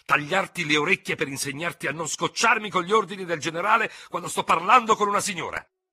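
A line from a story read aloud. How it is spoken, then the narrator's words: Sudden shout. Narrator (Italian): urlò all'improvviso il tenente Ferro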